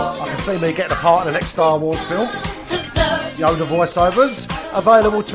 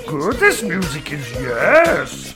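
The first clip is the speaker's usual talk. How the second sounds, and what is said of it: Yoda character voice. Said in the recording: “that's about the best Yoda impersonation I could do. That was all right, though”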